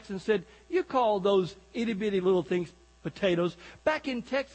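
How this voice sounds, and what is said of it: Usual voice. Nothing is said of it.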